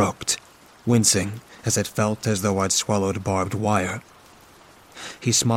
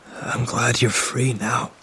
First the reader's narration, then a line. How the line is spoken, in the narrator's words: I rasped